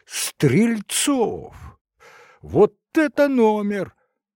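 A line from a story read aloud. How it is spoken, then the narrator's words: Loud exclamation. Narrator (Russian): Громко воскликнул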